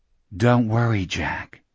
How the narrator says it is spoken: a voice whispered

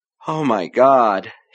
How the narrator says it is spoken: said, beginning to laugh weakly

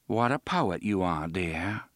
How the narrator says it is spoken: Susanna said dryly

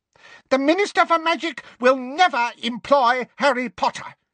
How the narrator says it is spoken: said Umbridge, her voice rising furiously

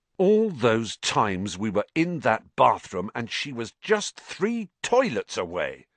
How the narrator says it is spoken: said Ron bitterly

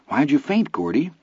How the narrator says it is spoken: Vern asked anxiously

